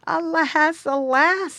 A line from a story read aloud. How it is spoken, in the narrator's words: he exclaimed